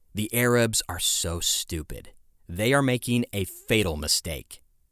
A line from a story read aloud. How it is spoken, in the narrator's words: An Israeli lieutenant colonel sneered